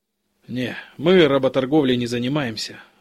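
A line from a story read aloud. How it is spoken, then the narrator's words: Sigh. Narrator (Russian): вздохнул Демьянов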